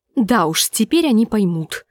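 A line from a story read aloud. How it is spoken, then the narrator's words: Through gritted teeth. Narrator (Russian): сквозь зубы сказала Гленда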